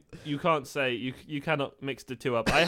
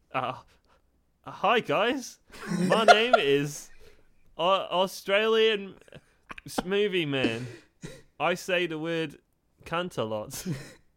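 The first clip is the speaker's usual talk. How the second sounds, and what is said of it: Put-on Australian accent. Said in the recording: “he's Australian, so do an accent”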